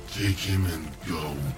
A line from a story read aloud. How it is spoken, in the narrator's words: the creature growled, almost in shame